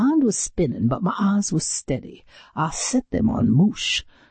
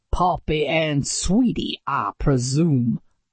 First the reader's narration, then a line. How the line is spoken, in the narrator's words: I snarled